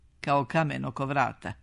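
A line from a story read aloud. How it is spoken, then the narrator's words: Plain. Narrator (Serbian): rekla je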